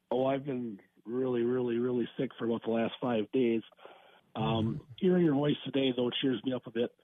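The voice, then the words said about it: Gravelly, hoarse sick voice. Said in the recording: “you sound gravelly ... Did you lose your voice?”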